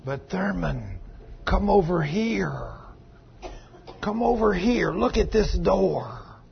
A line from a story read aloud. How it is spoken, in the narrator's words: the devil, he will whisper